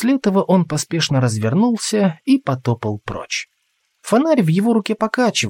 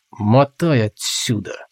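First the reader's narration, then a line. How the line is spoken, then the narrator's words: Hissed through teeth. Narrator (Russian): сквозь зубы процедил Толгрим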